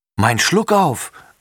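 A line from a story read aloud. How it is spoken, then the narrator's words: Calls out. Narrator (German): ruft Tommy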